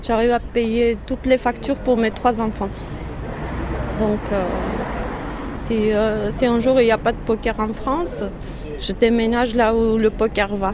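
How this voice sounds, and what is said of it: Slight Armenian accent in French. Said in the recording (French): “Vous avez un léger accent... Je suis arménienne, d'origine arménienne.”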